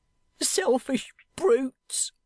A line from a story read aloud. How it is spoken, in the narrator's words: said the girl, sobbing and heaving between whiles